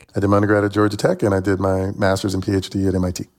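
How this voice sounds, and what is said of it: Tennessee accent. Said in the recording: “as you can tell by my accent, I'm from Chattanooga, Tennessee”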